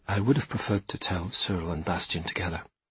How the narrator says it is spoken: said Iñak quietly

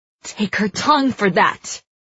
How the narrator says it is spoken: Evangeline snarls

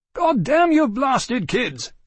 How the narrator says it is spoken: Seeley bellowed from the doorway of his study

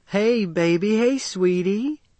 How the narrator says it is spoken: a woman cooed

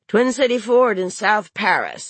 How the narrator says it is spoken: he said

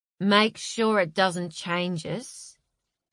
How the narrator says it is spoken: he slurred just before they fell asleep

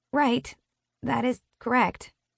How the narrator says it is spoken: I mumble awkwardly

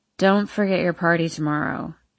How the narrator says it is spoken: she mumbles

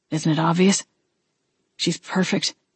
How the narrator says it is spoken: he mumbled, blatantly fawning over her

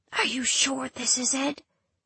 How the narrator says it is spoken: whispers Luella, so low as to make me strain

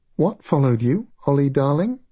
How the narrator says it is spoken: Her voice was steady, but there was concern in it

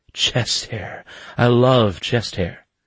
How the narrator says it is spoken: gasped

